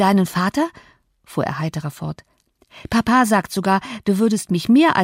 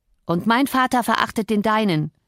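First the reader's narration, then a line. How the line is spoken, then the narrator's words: Calling out. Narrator (German): rief der andere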